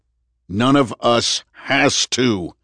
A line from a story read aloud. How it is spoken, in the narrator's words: Andrew thundered